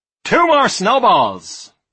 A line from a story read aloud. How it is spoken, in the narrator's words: roared Julian